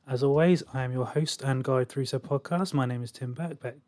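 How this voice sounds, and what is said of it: Strained, failing voice. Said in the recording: “My voice is going apparently as I'm doing this intro.”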